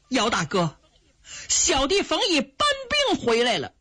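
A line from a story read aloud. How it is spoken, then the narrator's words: Calling out. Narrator (Chinese): 冯毅就叫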